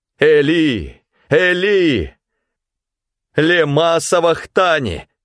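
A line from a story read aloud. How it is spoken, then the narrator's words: Loud cry. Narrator (Russian): Иисус вскрикнул громким голосом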